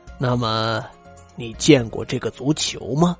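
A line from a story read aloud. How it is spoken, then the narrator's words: Cold sneering laugh. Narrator (Chinese): 宋平安冷冷一笑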